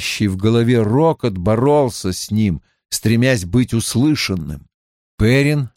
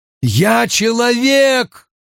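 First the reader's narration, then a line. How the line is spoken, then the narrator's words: Shouted. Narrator (Russian): прокричал Перин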